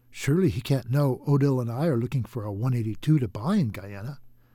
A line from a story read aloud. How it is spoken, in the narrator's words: Orville whispered to David